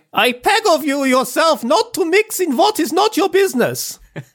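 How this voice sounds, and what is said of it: Put-on German accent. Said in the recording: “it's phonetically like that in the book ... Great German accent as always”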